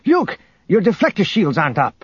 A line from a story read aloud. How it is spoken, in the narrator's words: he noticed something odd and called out